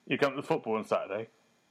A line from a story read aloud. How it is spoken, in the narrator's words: he grunted at me